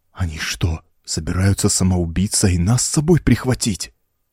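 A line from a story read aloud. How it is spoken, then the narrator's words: Terrified whisper. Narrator (Russian): в ужасе прошептал Маркли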